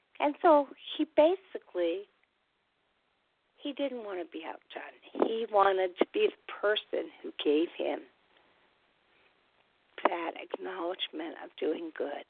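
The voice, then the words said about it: Congested, sick-sounding voice. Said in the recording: “Can you all tell I have a cold? I have got the worst cold slash cough”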